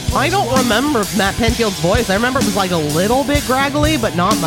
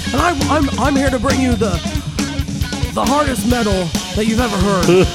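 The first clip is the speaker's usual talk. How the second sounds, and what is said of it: Imitates another person's voice. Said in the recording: “Can you do a Matt Pinfield impression?”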